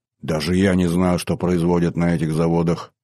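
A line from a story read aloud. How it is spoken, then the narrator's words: Muttering. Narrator (Russian): пробормотал Хофи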